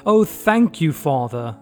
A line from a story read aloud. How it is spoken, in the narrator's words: they all cried